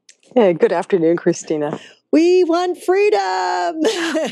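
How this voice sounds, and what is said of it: Sudden American-sounding accent. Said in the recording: “I just sounded so American suddenly, didn't I?”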